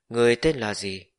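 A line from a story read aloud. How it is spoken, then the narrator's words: Woman speaking suddenly. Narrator (Vietnamese): vị nữ tử kia bỗng nhiên mở miệng nói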